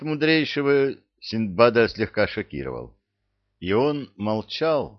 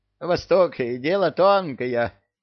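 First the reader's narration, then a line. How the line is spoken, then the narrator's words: Giggling. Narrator (Russian): хихикнул Бессони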